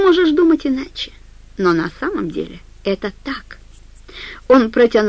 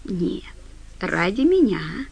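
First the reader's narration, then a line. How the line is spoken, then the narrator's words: Said tenderly. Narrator (Russian): нежно сказал Флэг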